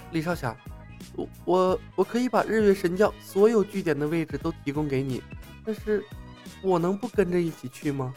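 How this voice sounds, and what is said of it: Quiet, hushed character voice. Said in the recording (Chinese): “小声的和李牧商量”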